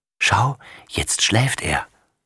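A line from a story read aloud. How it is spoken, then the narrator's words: Whisper. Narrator (German): flüstert sie ihrem Stern zu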